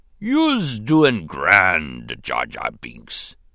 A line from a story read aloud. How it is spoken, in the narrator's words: he rumbled